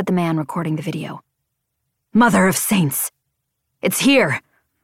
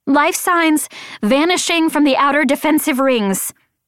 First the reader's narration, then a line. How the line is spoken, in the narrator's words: shouted the woman